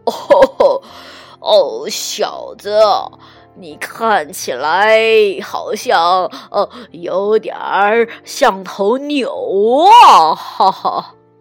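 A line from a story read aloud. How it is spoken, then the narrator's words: Laughing cow. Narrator (Chinese): 奶牛笑着说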